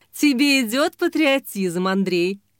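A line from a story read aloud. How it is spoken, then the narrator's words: Laughing. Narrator (Russian): засмеялась Лин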